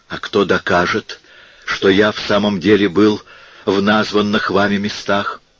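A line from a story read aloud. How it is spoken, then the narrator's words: Exclaiming. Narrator (Russian): воскликнул Ацо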